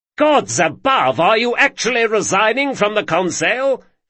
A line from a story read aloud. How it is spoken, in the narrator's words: shouted someone in the crowd